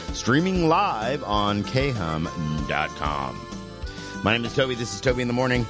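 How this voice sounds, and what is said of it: Groggy morning voice. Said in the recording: “I am headlong in my morning voice”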